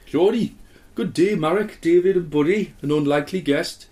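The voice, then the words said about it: Put-on Geordie-Turkish accent, drifting Welsh. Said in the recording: “ex-Geordie who has lost his accent, now living in Turkey ... Just sort of your voice after you had a Geordie's had a kebab ... That's gone Welsh.”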